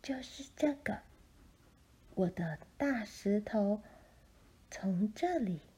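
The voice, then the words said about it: Whispered, quiet storytelling voice. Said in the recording (Chinese): “嘘，小丽推开一片厚厚的叶子，小声地说”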